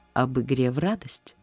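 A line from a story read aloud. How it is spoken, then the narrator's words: Plain, man. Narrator (Russian): спросил мужчина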